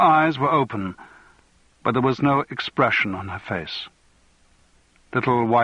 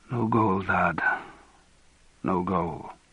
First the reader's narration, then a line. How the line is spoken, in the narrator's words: he murmured